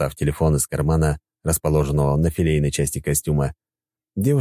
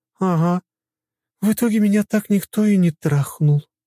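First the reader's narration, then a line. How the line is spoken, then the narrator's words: Resigned sigh. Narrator (Russian): обреченно вздохнула она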